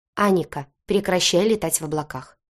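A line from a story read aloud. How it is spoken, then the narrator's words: Stern. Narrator (Russian): сказал он строго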